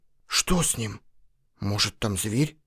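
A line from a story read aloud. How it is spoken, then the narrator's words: Whispered. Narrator (Russian): прошептал Лан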